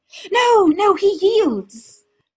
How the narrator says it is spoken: Lady Amantia cried from the sideline

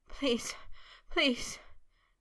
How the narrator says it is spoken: he panted in a chanting plea, shudders still jerking through him

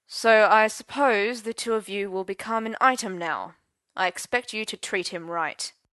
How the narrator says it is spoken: said Uther stiffly

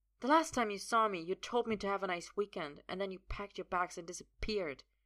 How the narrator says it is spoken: he snaps

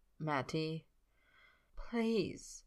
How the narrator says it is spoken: he says it softly

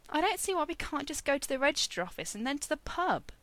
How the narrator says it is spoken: Merlin complained feebly

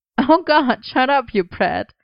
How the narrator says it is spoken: Merlin laughed

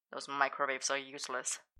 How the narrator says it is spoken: Arthur muttered

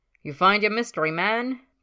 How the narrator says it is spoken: Ted called out across the room

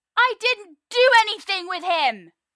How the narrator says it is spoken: Merlin shouts now, helpless in the face of the rage that sweeps over him

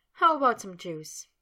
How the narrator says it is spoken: still chuckling, asked

